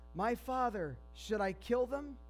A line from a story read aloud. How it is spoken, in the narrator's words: he shouted to Elisha